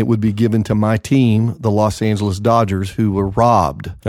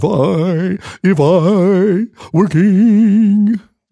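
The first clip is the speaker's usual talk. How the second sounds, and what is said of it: Sung imitation of the cartoonish lion. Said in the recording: “I'm having Wizard of Oz moments right here. ... You remember when the lion sang? ... I think that was a pretty good impersonation.”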